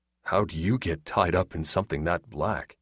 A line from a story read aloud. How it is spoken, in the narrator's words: Russell asked quietly